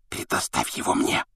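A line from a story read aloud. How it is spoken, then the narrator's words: Whispered in ear. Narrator (Russian): шепнул он другу на ухо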